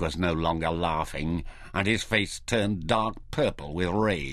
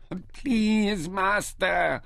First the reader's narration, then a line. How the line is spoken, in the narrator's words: Ishtar wailed